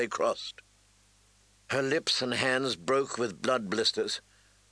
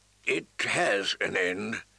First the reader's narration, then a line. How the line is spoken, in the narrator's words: he answered wearily